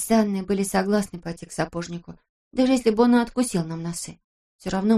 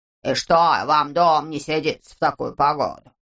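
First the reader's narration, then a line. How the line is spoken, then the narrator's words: Grumbling. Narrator (Russian): проворчал он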